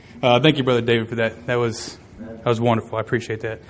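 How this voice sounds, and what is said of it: Hoarse, slightly choked voice. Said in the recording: “sorry about the frog in my throat... Got choked up a little bit”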